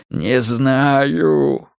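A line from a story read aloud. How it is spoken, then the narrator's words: Strained, hoarse, squirming wheeze. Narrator (Russian): кривя рот, корчась под пронзительным взглядом сотрудника управления, просипел он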